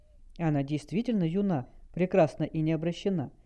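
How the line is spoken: Quiet. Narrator (Russian): тихо произнес Вар Ар-Радин

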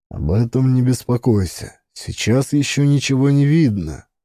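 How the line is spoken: Calmer. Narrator (Russian): сказал Азиз уже более спокойно

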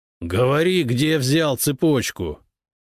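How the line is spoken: Growled. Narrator (Russian): прорычал он

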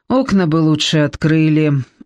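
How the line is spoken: Weary chief muttering. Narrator (Russian): устало пробормотал вождь

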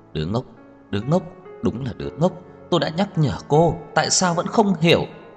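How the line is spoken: Muttering while walking. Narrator (Vietnamese): Trang Hạo Nhiên vừa đi vừa lầm bầm

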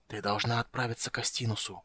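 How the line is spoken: Whisper. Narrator (Russian): прошептал он

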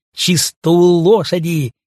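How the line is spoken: Shout. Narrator (Russian): крикнула она

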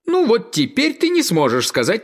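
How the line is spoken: Frog exclaiming. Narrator (Russian): колодезная лягушка воскликнула

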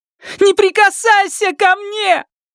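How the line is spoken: Shouting. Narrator (Russian): крикнула она

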